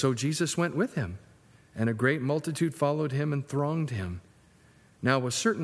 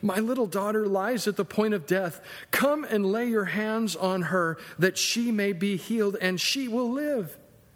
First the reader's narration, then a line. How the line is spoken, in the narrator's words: begged him earnestly, saying